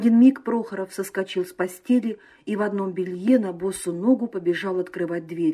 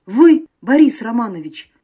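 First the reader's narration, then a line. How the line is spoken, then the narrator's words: Exclamation. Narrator (Russian): воскликнул Прохоров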